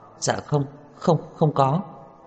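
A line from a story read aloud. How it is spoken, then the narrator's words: Frightened hurried speech. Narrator (Vietnamese): Tiểu Ninh hoảng sợ đến vẻ mặt run rẩy, vội vàng nói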